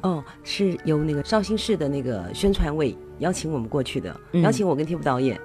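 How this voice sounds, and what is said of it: Soft-voiced Taiwanese Mandarin accent. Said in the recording (Chinese): “口音，你一定会说她不是大陆人，对她来自台湾...台湾女人说话的声音一直是非常柔美哈”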